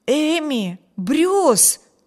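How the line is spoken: Astonished exclamation. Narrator (Russian): воскликнул изумленный Виберт

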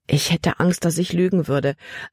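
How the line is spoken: Plain. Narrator (German): antwortete Libby

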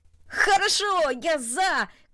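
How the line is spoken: Shouting. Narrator (Russian): крикнул он

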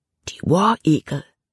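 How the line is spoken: Whispered. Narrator (German): flüsterte Jordan

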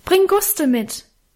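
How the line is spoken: Calling after someone. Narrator (German): rief in die Dunkelheit nach

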